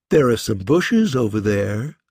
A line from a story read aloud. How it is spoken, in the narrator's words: she said playfully